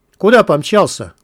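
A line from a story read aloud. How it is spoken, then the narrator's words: Rough call. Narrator (Russian): грубо окликнул его Мякиш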